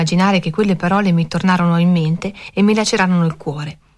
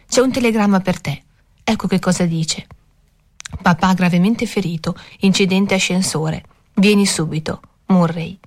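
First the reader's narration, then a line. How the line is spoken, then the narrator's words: Gently. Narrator (Italian): disse dolcemente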